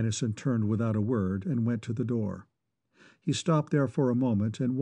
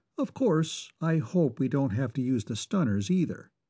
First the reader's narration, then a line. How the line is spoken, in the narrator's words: he said calmly